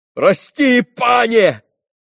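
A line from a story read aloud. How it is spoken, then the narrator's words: Frenzied shout. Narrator (Russian): крикнул он исступленно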